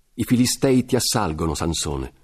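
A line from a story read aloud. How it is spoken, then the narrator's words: Shouted. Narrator (Italian): Dalila gridò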